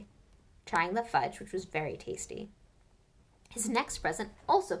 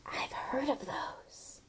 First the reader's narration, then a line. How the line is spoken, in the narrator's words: he said in a hushed voice